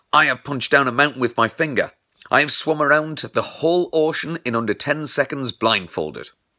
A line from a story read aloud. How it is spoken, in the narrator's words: He yelled